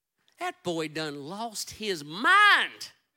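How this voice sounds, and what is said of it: Put-on southern accent. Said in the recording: “Probably with that same southern accent right there”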